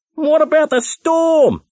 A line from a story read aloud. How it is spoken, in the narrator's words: he shouted